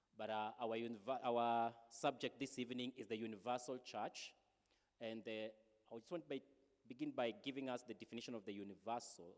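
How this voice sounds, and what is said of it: Shaky voice from a cold. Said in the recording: “forgive my voice a little bit ... we just been hard hit with cold ... should you hear the tremors, bear with me. That's not how I speak all the time.”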